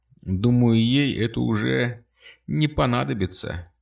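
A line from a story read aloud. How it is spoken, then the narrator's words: Sad remark. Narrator (Russian): грустно заметила Кристина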